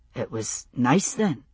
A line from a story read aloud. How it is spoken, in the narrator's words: he said softly